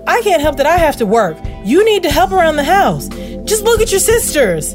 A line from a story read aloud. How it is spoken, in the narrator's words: mom yells back